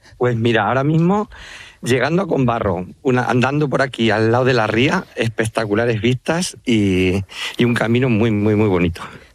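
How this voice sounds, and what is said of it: La Mancha Spanish accent. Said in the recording (Spanish): “Te ha salido a ti también el acento manchego, ¿eh? ... Es que soy muy manchego.”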